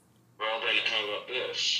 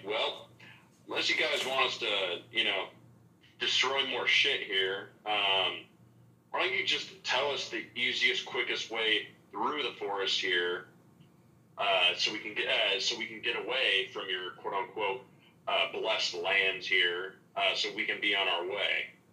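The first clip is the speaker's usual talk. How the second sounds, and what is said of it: Intimidating, menacing tone. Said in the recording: “in an intimidating voice,”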